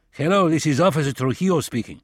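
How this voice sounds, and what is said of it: English with heavy Spanish accent. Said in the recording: “speaking English with a heavy Spanish accent.”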